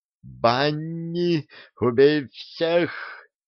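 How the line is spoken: Howled. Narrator (Russian): взвыл Кефир

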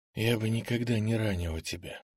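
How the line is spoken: Quiet voice. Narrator (Russian): сказала тихим голосом

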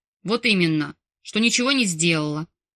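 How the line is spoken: Barked with deep growl. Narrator (Russian): Рявкнул он, утробно зарычав, перечислил

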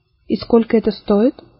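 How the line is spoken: Quiet question. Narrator (Russian): тихо спросила мама

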